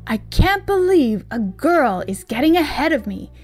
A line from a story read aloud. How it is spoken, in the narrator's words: he exclaimed